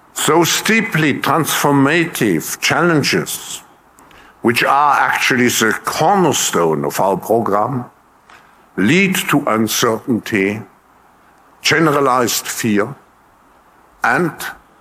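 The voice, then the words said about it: German accent. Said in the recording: “It's partially the accent. ... It's absolutely the accent. ... That's Germans, man.”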